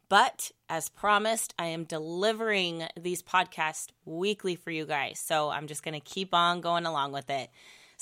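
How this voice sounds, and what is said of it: Voice slightly off, recovering from voice loss. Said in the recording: “if you hear a little bit of a difference in my voice today, it's because I did lose my voice last week... it's taking me a little bit to get my voice completely back to normal”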